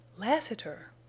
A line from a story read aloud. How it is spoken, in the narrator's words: Jane whispered